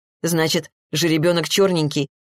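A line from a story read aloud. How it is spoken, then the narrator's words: Snorted. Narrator (Russian): хмыкнул Максим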